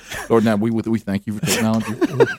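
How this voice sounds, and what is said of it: Serious prayerful voice impression. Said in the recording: “just that serious voice”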